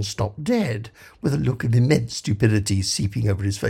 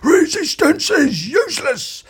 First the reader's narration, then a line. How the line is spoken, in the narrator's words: Ford said desperately